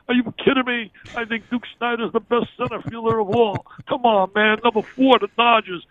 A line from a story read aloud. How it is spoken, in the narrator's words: my Uncle Tom would scream